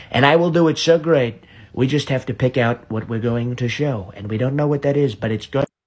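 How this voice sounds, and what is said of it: Imitates another person's voice. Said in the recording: “It's so spot on. ... do a good impersonation ... he does, like, the pausing, and he does the mouth, and everything, just like Trump does”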